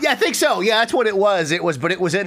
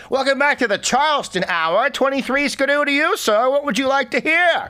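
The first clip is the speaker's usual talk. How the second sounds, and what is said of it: Old-timey radio DJ voice. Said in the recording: “in that same old voice ... radio DJs back in the day”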